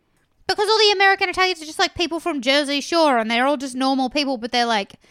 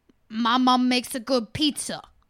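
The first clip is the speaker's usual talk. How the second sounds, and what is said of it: Put-on Jersey Shore accent. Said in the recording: “that's my, like, Jersey Shore accent. I don't know if that's good or bad.”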